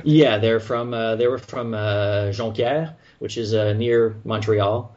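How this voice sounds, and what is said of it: French Canadian accent. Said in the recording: “my accent, you know, I'm French Canadian”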